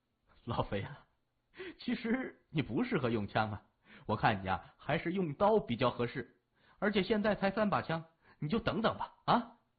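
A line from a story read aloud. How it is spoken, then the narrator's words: Laughing. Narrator (Chinese): 三眼笑了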